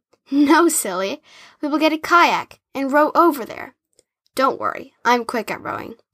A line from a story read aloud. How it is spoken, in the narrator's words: chuckled and said